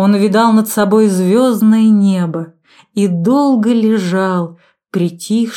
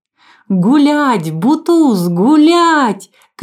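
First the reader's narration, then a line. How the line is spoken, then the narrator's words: Children shouting. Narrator (Russian): кричали дети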